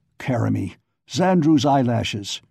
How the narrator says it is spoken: he growled

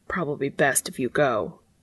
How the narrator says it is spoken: He swallowed his panic saying as coldly as he could muster

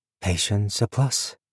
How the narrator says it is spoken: Viv murmured

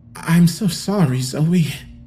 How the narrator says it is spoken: I sputtered

